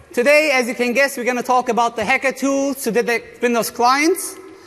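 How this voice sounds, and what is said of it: Speaks with a noticeable foreign accent. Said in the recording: “I got a weird accent”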